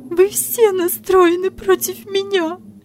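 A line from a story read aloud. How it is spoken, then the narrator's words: Sobbing. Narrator (Russian): всхлипывала Мария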